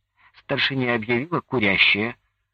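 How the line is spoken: Stern remark. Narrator (Russian): строго заметила Нюра

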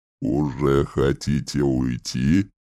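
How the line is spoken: Grating inquiry. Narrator (Russian): Скрежещущим голосом поинтересовался Марлин

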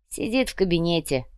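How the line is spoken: Snorting hmph. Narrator (Russian): хмыкнул Бруно

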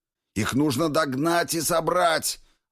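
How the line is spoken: Shouting out. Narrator (Russian): выкрикнул

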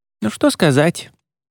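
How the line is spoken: Dramatic sigh, slightly cheered. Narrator (Russian): Она драматично вздохнула, немного повеселев

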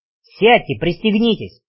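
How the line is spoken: Barked. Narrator (Russian): рявкнул Веня

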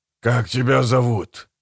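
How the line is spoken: Desperate rasp. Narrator (Russian): прохрипел, которому отчаянно хотелось это узнать, прежде чем он окончательно потеряет себя

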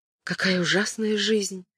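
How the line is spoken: Muttering. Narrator (Russian): пробормотала Кэтрин

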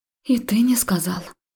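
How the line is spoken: Hurt breathy exhale. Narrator (Russian): выдохнула я обиженно

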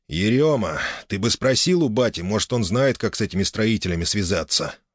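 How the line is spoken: Sighed. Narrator (Russian): вздохнул он

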